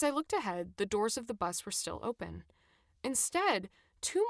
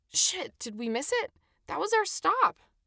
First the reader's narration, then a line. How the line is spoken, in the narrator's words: I exclaimed